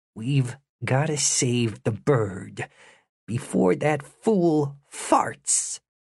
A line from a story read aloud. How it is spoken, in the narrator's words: Through gritted teeth, Jimmy whispered